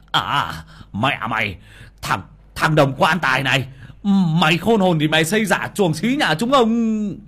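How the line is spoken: Fierce hissing. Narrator (Vietnamese): một bàn tay hung hăng túm của ông mà rít lên

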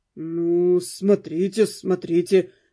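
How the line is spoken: Uncertain drawl. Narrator (Russian): неуверенно протянул Дэн

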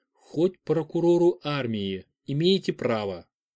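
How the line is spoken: Calm retort. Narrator (Russian): Спокойно парировал Федор

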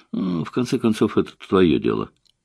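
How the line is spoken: Muttering. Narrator (Russian): Наташа пробормотала

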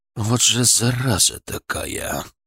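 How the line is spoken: Cursing through gritted teeth. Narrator (Russian): выругался он сквозь зубы, от досады

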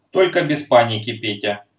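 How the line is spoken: Stern. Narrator (Russian): строго сказал Майкин

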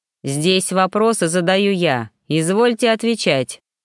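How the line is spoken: Stern curt retort. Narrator (Russian): строго отрезал Ермаков

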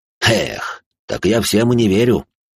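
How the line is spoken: Snort. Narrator (Russian): хмыкнул собеседник

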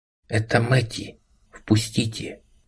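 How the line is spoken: Barely audible whisper. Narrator (Russian): Она говорила шепотом, едва слышно

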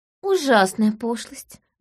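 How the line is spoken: Sighing. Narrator (Russian): вздохнула госпожа Ток

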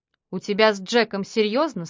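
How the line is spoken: Plain. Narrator (Russian): спросил он

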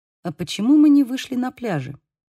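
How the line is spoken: Quiet. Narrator (Russian): тихо произнес Хольден

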